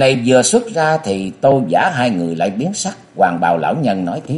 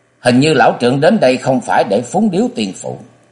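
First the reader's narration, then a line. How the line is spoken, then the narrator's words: Cold voice. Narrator (Vietnamese): giọng lạnh lùng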